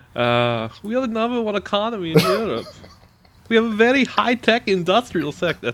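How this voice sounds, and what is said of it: Bad put-on German accent. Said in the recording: “That's a terrible German accent.”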